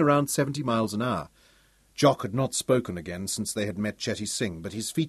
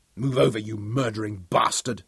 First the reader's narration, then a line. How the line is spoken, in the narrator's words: Daniel snarled